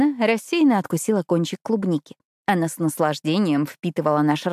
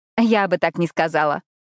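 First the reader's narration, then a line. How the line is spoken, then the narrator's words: Laughing. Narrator (Russian): рассмеялась я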